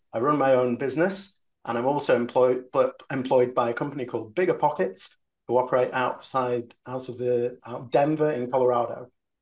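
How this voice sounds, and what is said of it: English accent. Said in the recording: “as you can hear from my accent, I am not an American. I am English”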